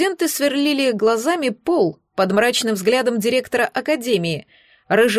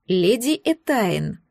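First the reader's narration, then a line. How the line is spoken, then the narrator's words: Hissed. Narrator (Russian): прошипел лорд Люциус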